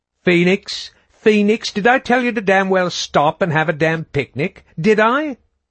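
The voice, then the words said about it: Posh cut-glass accent. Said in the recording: “She had a cut-glass, posh accent that sometimes just didn't go with her colorful language.”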